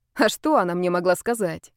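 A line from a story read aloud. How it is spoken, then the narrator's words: Snorting. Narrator (Russian): хмыкнула я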